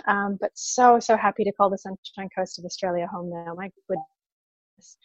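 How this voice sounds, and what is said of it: Canadian English accent. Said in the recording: “originally from Canada, that would be the accent.”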